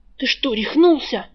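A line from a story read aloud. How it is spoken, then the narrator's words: Hissed through teeth. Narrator (Russian): прошипел вор сквозь зубы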